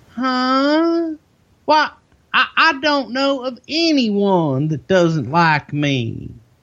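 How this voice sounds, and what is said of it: Impression of Jerry Jarrett. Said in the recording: “I love that impression.”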